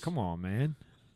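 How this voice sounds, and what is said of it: Imitates another person's voice. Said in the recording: “his dog Biden impression”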